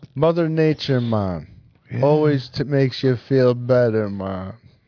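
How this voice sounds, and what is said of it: Put-on Jamaican accent. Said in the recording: “That's my Jamaican accent.”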